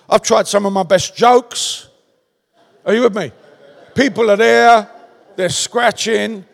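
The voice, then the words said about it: Strong Cockney London accent. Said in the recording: “an English guy from London with a strong Cockney accent”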